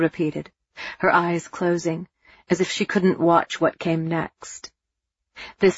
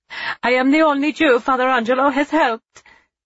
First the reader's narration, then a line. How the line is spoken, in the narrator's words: Ava cried